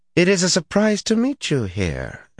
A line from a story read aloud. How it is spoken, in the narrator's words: an arrogant, if beautiful woman said coolly